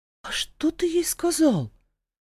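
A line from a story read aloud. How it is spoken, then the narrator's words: Forced out, bewildered. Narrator (Russian): выдавила я растерянно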